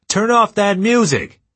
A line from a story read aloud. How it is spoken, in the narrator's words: So loud, a guard near the gate started hollering